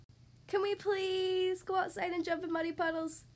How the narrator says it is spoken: asked Peppa excitedly

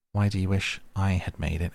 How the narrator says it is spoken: Alice asked

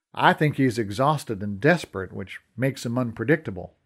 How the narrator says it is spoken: Brendan said

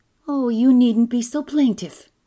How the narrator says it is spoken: said Anne in a sharp voice

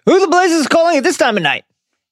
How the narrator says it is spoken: Vernon shouts

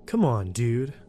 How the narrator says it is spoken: he said in his Chadliest tone

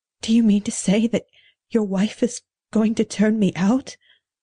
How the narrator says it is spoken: Eunice gasped rather than spoke the words

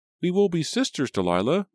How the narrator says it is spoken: Rachel exclaimed

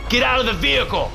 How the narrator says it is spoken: I yelled

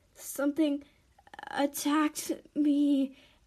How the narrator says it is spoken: Addie moaned as she lay on the ground

